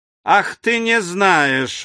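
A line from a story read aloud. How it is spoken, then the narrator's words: Echoing roar. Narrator (Russian): взревел Мишель, и его крик вызвал громкое эхо в снаряде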